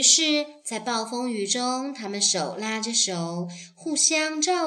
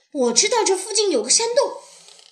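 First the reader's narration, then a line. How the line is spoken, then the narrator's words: Urgent shout. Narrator (Chinese): 野兔急忙朝大家喊道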